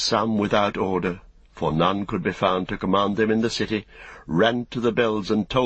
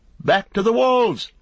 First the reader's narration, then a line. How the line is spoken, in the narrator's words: they cried